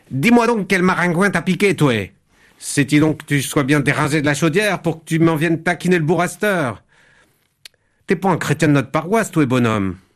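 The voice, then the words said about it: Put-on Cajun French accent. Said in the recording (French): “l'accent cajun... Moi, je suis très mauvais en accent... ça n'a rien à voir avec l'accent québécois... C'est un accent purement imaginaire”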